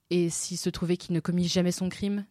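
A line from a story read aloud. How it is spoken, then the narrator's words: Plain. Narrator (French): dit Alice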